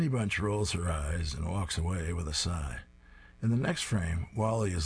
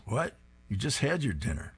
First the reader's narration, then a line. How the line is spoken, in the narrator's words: Honeybunch exclaims